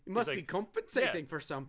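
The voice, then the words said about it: Bad fake Scottish accent. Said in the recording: “I was doing your version of the Shrek accent. ... That was a Holland accent. ... I was doing his version of the accent because it's terrible.”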